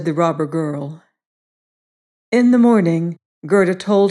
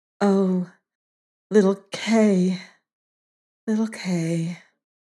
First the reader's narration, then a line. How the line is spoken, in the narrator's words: sighed Gerda